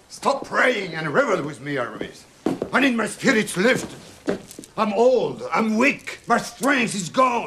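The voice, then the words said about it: French-accented English. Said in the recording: “the Gérard Depardieu accent”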